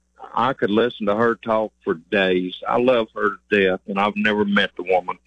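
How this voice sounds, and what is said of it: Hillbilly accent. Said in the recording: “Do you think you have an accent? ... Yes, sir. I know I do. I'm a hillbilly.”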